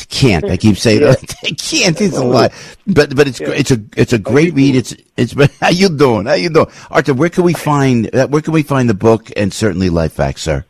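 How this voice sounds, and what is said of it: New Jersey accent. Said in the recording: “My Jersey accent's coming out. Can't.”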